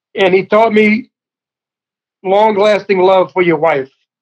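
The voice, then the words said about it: Choked up, emotional voice. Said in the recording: “I'm sorry I'm a little choked up.”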